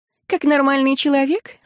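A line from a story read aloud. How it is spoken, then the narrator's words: Laughing. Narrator (Russian): засмеялась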